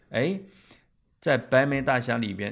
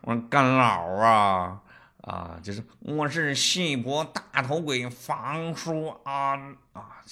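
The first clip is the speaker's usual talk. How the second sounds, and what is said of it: Shan Tianfang's no-nose character voice. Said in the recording (Chinese): “一说话就这味儿，嗯嗯，因为他没鼻子嘛，他他他不兜风啊 ... 单田芳 ... 一个细脖大头鬼的没鼻子口音”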